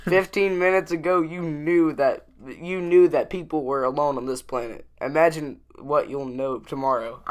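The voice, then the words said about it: Imperfect country accent impression, stuttering. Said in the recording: “sort of a country ... Accent. ... The accent wasn't quite right. ... the stuttering made the timing worse.”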